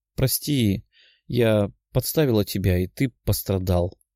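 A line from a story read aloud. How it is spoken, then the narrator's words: Sad young woman. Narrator (Russian): грустно сказала девушка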